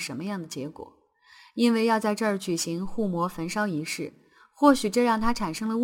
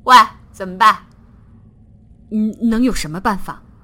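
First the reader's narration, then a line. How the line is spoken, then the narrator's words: Stiff, loud. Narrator (Chinese): 水桥生硬地回答道，因为声音很大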